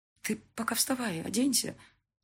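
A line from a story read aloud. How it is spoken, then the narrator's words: Lowered to whisper. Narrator (Russian): понизив голос до шепота, добавила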